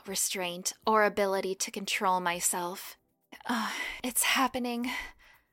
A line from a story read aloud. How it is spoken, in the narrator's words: I said between breaths